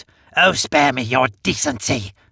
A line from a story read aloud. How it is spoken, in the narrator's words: I snarl at her